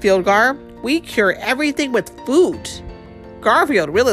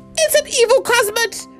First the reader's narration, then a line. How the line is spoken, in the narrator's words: cried Fjolgar